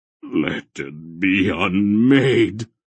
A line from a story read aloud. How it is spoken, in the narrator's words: Mara groaned